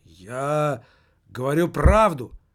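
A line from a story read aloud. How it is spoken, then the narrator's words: Exclamation. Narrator (Russian): воскликнул немаркетинг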